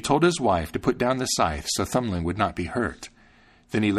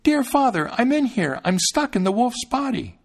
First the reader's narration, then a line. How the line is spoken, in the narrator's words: When Thumbling heard his father's voice, he cried out